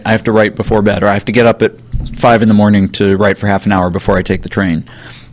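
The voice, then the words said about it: Hoarse, fading voice. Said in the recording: “losing my voice. This is really bad.”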